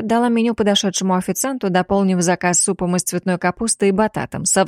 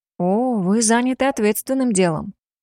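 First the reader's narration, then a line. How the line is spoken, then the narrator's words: Surprised drawl. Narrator (Russian): удивленно протянула она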